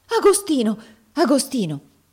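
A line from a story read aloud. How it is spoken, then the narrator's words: Exclaimed. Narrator (Italian): esclamò Miss Ophelia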